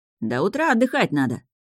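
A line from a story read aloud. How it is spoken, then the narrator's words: Mild grumble. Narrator (Russian): проворчал Орин, но не слишком строго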